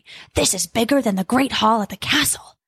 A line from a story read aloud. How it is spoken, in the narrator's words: Jack whispered softly